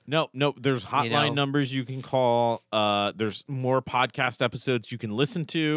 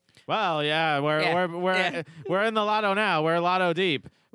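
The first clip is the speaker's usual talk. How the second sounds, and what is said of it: Put-on transatlantic accent. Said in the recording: “Give me your best transatlantic accent”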